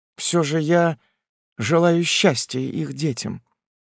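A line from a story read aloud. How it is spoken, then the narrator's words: Quiet. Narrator (Russian): тихо повторила Этель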